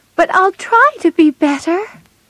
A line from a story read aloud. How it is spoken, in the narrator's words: she cried